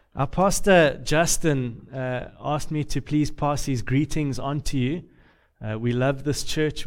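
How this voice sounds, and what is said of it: Deep Southern US accent. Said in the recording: “I'm from the South, the deep South, the really, really deep South ... because of my accent”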